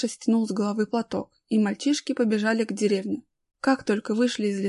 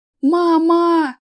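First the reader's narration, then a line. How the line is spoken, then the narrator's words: Frantic screaming. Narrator (Russian): истошно завопил Аркаша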